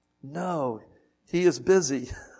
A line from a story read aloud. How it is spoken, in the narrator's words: whispered the child